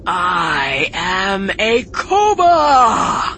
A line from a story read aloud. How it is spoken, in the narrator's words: shouted, standing proudly